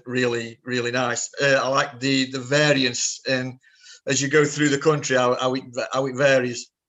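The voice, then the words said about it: British accent. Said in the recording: “that lovely British accent”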